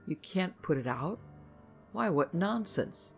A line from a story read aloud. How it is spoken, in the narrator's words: Margaret exclaimed